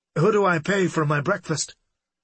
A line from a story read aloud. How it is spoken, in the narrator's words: Unable to think of anything else to say, he blurted